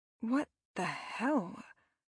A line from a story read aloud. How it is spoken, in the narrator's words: I breathed